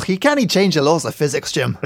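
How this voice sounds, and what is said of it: Scottish accent, Star Trek Scotty impression. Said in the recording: “do the Scotty voice in Star Trek ... do a Scotty accent”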